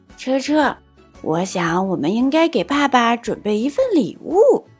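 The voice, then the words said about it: Quiet, hushed child's voice. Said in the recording (Chinese): “小声”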